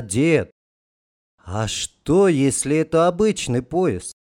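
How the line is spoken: Quiet, sudden question. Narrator (Russian): тихо спросил неожиданно

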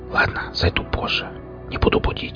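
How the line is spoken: Whispered. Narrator (Russian): прошептал я

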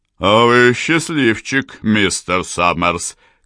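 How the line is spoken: Loud laughter. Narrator (Russian): капитан расхохотался в голос

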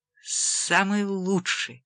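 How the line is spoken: Almost inaudible voice. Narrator (Russian): произнес Джек почти неслышным голосом

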